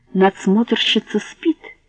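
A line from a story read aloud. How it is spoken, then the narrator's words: Snide whisper, old man. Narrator (Russian): не без ехидства шепнул старик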